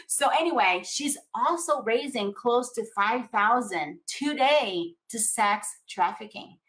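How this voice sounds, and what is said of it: Latino accent. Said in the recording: “my Latino accent”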